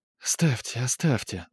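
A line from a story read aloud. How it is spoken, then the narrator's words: Whispering. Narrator (Russian): зашептала Хеся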